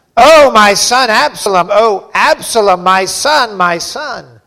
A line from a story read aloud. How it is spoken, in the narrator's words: the king cried with a loud voice